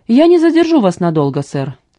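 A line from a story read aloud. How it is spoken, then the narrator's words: Calm and serious. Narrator (Russian): сказал Джеймс так спокойно и серьезно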